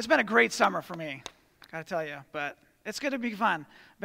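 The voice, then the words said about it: Soft, out-of-practice voice. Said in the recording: “my voice is a little soft”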